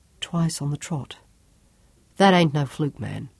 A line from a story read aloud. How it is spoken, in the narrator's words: Job murmured